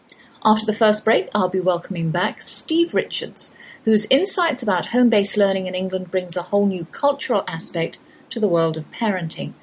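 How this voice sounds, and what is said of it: English accent. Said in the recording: “that's my English accent you're hearing, though I've lived in the Lone Star State half my life. I can't bring myself to say y'all yet”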